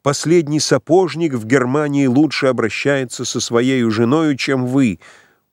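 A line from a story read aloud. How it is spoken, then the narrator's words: Shouting. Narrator (Russian): Она закричала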